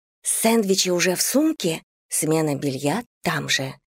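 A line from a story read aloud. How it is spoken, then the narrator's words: Conspiratorial whisper. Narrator (Russian): Заговорщицким тоном прошептала ей на ухо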